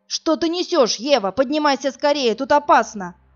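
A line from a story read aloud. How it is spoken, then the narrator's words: Shouted. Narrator (Russian): закричал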